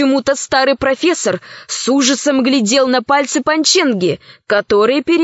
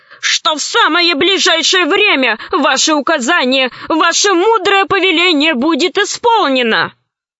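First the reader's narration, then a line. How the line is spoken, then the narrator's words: Old man pleading. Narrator (Russian): взмолился старик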